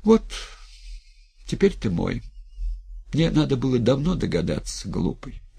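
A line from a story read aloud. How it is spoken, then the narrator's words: Tired, calm. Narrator (Russian): устало и спокойно сказала Клавдия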